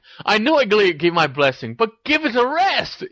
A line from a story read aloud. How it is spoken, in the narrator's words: He exclaimed